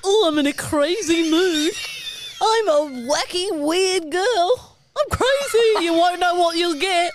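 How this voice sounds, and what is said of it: Funny little put-on voice. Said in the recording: “Did you do a funny little voice?”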